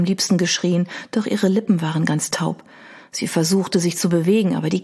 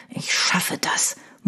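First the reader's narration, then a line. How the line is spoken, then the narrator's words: Muttered. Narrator (German): murmelte er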